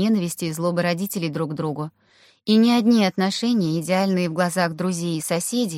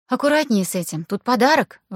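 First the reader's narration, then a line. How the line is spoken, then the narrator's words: Exclamation. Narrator (Russian): воскликнула Аня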